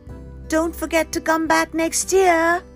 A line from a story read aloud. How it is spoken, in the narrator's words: Cupping his hands to his mouth, he shouted across the fields